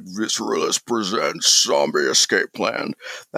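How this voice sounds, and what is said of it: Exaggerated very deep voice impression. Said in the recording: “really deep voice ... my attempt to do a Corpse impression. A really bad one, though ... That was Sean Connery right there.”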